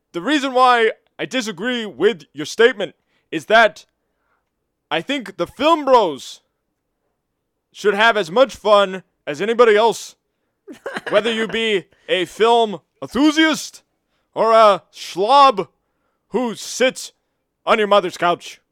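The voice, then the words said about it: Imitates another person's voice. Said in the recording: “I'm going to do this in my Bernie Sanders accent”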